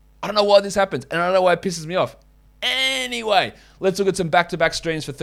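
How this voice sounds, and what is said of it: Usual voice. Nothing is said of it.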